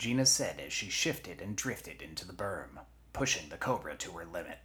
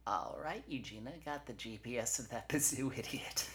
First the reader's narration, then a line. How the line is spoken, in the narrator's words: Eugenia's forearm said with a laugh